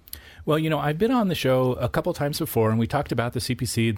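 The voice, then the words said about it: Smooth, pleasant radio voice. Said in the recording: “You have that radio voice I love to hear... such a wonderful voice”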